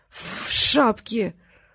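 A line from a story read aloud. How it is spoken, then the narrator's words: Forced out with difficulty. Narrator (Russian): С трудом выдавил из себя шпик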